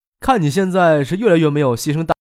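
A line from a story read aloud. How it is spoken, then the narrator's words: Surprised, laughing. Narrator (Chinese): 张可颇为意外的，笑着说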